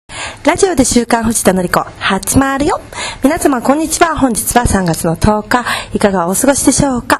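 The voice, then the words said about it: Cute, girlish put-on voice. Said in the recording (Japanese): “こんな可愛らしい感じの声でずっとやってるの ... これは可愛い感じでやってる”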